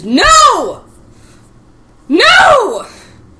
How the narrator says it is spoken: screams

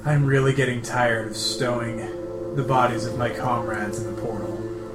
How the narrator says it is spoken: lets out a deep sigh, says

